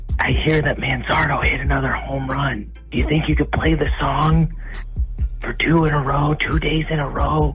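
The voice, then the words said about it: Whispering voice. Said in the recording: “I'm whispering because I'm putting my kids to sleep.”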